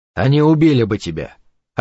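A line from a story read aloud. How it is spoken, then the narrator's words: Cold reply. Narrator (Russian): ответил он холодно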